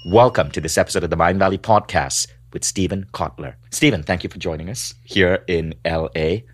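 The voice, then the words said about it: Malaysian accent. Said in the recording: “I have a weird Malaysian accent”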